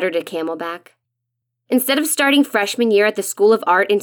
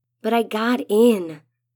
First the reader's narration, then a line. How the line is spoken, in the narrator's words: I whispered toward Camelback, hoping the mountain will offer some kind of comfort